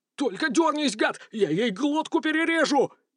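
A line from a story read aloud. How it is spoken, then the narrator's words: Frantic screaming. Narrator (Russian): истошно вопил бандит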